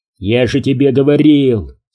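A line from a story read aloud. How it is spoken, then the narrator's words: Plain. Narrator (Russian): сказал Ньюком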